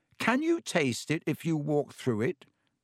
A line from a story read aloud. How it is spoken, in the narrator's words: Harry asked him